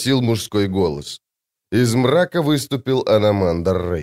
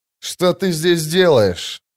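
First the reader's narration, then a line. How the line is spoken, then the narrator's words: Growl. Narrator (Russian): прорычал сын тьмы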